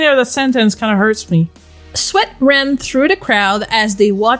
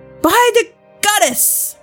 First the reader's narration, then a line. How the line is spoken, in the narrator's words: she gasped